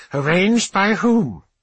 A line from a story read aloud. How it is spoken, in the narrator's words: the techno-archaeologist, a wheezing shape, radiates an aura of disapproval